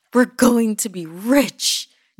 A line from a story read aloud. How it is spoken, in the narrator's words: shouted